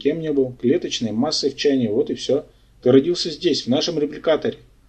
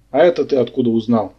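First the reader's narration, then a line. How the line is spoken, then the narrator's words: Displeased grumble. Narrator (Russian): недовольно проворчал Барсуков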